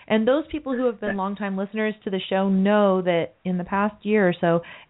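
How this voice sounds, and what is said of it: Congested, rough voice from cold. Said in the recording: “I have a horrible cold, and my voice sounds so disgusting and unprofessional ... every time I get a cold, it goes straight to my vocal cords”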